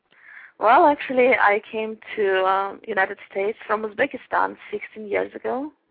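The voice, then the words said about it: Uzbek, Russian-sounding foreign accent. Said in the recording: “you have an interesting accent ... this nice KGB accent ... a very charming accent”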